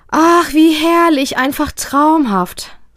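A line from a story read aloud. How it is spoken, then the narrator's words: Happy sigh. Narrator (German): seufzt Mama beglückt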